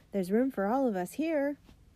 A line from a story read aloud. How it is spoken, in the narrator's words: A man called out